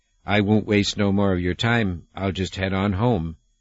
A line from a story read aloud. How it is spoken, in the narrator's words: the old man would say, shaking his head sadly